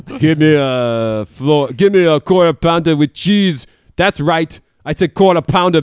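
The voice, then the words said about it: Heavy put-on French accent. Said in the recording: “you're doing a heavy French accent”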